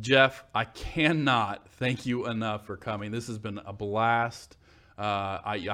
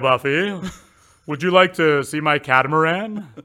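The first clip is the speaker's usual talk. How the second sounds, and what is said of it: Loud, very posh character voice. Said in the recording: “it sounds very, very posh ... that impression ... just blew the speakers out”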